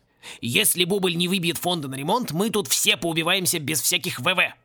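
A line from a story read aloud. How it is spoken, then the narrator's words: Grumbling. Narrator (Russian): проворчал он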